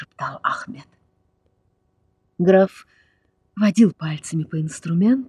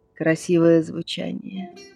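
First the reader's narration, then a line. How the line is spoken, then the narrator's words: Dry remark. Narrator (Russian): сухо заметил граф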